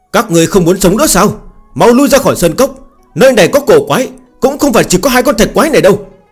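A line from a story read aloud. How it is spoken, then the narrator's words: Furious. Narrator (Vietnamese): Hứa Linh Vân trong lòng cũng dâng lên tức giận khó tả, căm giận nói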